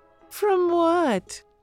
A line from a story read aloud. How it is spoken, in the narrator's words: he mocks, making his voice high